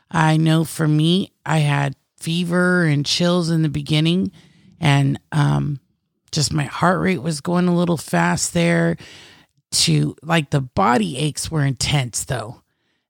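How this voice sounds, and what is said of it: Congested, phlegmy sick voice. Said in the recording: “you can hear it in my speaking voice ... coughing and now just this mucus”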